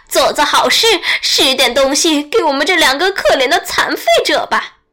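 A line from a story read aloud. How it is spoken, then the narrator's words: Whining, tearful cry. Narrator (Chinese): 狐狸哭也似的叫道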